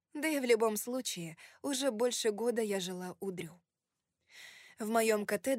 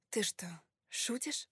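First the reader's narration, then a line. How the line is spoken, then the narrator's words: Muttered under breath. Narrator (Russian): пробормотала я себе под нос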